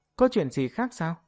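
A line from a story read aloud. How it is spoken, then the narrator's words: Cheerful, smiling. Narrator (Vietnamese): Ngự Thiến Thiến tâm tình rất tốt, mỉm cười nói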